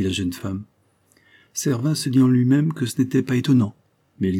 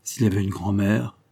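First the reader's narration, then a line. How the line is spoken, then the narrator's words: Relieved murmur with sigh. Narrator (French): murmura Servin avec un soupir de soulagement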